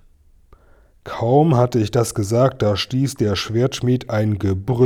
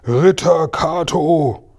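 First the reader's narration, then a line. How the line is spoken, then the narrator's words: Thunderous echoing roar. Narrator (German): brüllte, dass es im Berg dröhnte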